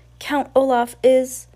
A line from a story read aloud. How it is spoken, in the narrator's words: cried